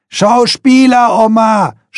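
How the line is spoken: Shouting. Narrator (German): schreit Dotto

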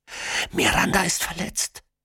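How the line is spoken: Whispering. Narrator (German): flüstert

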